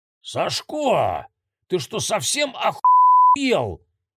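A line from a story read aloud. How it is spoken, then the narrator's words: Enraged roar. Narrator (Russian): взревел Колкин-старший, увидев, в какую помойку тот превратил квартиру и во что превратился сам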